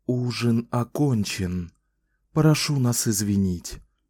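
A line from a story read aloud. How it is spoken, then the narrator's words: Quiet. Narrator (Russian): тихо сказал он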